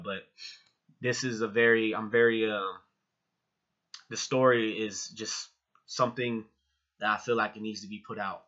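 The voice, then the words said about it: Emotional, teary voice. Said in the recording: “a little emotional, a little teared up”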